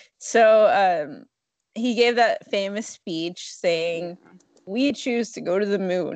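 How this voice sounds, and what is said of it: Usual voice. Nothing is said of it.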